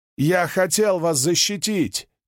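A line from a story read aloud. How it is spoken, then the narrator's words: Shouted. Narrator (Russian): крикнул Каладин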